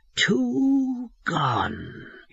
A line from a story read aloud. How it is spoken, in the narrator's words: he said, his voice lowering strangely